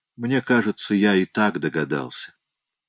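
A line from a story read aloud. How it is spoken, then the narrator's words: Calm. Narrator (Russian): сказал он спокойно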